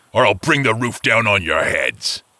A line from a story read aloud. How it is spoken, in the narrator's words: the giant growled